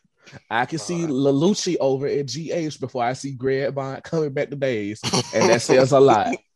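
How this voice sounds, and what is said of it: Noticeable regional accent. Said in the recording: “every time you say naive, it sounds like you're saying not even... my accent”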